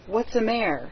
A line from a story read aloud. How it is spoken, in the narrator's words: asked Laura anxiously